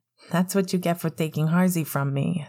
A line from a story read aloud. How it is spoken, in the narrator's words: Sirius laughed